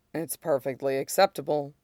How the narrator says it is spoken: Mace says dryly

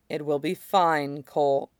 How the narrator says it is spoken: she says gently

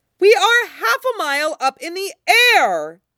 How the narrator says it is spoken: she screams

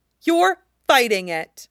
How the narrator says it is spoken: Zelda snaps

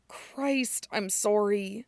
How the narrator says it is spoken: he mutters

